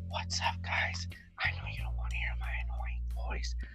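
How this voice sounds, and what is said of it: Whispered impression of Noodle King. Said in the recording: “it's more ASMR because he whispers ... I'm whispering”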